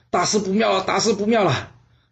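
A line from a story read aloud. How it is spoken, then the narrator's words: Breathless, panting. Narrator (Chinese): 越王父冲了进来，气喘吁吁的说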